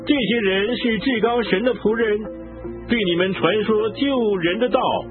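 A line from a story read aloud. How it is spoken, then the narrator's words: Shouting. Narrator (Chinese): 她跟随保罗和我们喊着说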